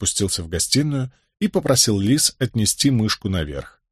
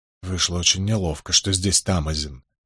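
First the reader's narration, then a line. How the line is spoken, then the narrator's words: Embarrassed mumble. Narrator (Russian): в некотором замешательстве пробормотал Николас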